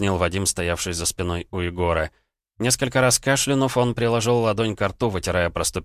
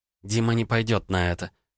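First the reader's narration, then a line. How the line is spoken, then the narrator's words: Hesitant drawl. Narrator (Russian): довольно неуверенно протянула Ванда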